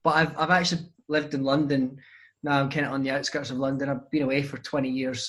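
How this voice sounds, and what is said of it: Softened Scottish accent. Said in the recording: “it is a Scottish accent ... it's a lot smoother than you might imagine having been brought up in Scotland”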